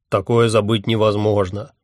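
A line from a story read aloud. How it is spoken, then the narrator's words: Snorting. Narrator (Russian): фыркнул он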